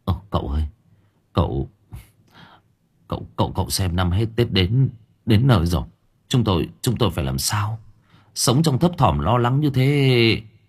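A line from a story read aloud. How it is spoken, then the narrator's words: Trembling old man. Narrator (Vietnamese): Ông Thành mới run run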